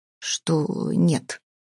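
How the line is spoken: Through gritted teeth. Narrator (Russian): процедила Стелла Юрьевна

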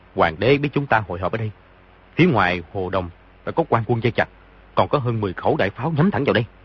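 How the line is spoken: Lowered voice. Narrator (Vietnamese): y hạ giọng nói

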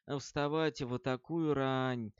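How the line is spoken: Sighing, to himself. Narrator (Russian): Роланд молча вздохнул и сказал сам себе

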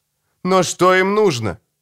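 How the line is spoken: Exclaimed. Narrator (Russian): воскликнул я

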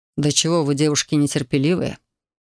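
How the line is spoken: Muttered. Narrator (Russian): буркнул он

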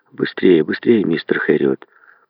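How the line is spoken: Muttered. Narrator (Russian): Пробормотал он

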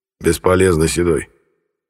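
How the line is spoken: Quiet. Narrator (Russian): негромко сказал Ярый

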